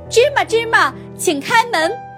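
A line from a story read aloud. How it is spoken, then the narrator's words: Bold loud shout. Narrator (Chinese): 鼓起勇气，大声喊道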